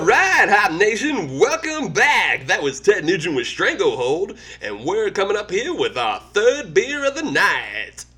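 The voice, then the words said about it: Hacky 80s radio DJ voice. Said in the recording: “It's a good impression of a shitty DJ ... It was a little bit hack ... that kind of hacky 80s DJ”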